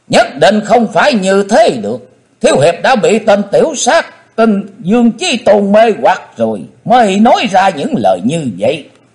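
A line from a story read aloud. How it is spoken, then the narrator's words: Loud shout. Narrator (Vietnamese): Hận Thế Tần Mũi Hy đã thét lớn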